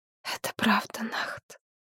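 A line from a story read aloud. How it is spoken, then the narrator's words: Priestess whispering. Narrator (Russian): прошептала жрица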